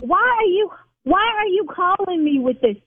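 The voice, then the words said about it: Yelling, raised angry voice. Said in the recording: “See, now I'm yelling. ... Okay, I need to calm down.”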